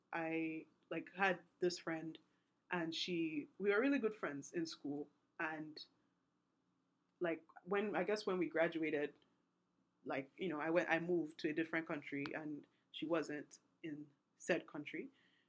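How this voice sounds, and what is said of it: Non-American accent. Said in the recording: “Maybe you can tell from the accent where I'm from... I went to high school outside of the US”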